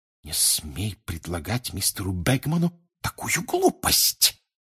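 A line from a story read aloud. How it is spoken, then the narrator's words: Furious hiss. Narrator (Russian): яростно прошипел Перси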